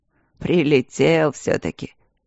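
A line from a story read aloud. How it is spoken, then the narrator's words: Grumbled. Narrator (Russian): проворчал он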